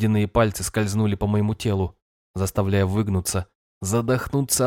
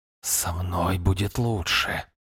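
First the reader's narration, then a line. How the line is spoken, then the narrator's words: Breathed. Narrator (Russian): выдохнул голос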